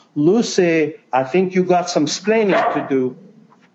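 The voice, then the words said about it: Ricky Ricardo impression. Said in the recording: “my Ricky Ricardo impersonation”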